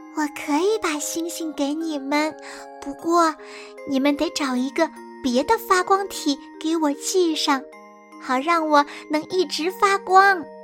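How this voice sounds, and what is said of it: Soft, quiet voice. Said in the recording (Chinese): “月亮小声地说”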